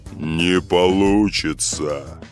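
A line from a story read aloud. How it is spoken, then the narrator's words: Menacing, a golden goblet. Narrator (Russian): грозно сказал самый большой, красивый золотой кубок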